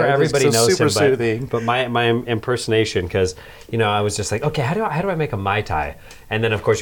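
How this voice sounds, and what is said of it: Usual voice. Nothing is said of it.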